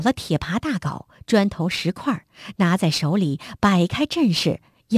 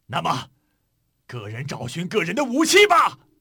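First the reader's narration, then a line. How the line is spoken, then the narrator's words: Shouting. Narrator (Chinese): 朱老忠喊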